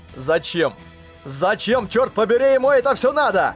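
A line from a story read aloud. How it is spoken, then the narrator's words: Shouted outburst. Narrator (Russian): выкрикнул он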